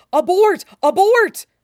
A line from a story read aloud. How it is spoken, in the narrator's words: Mustang looks any kind of off guard, let alone frantically trying to signal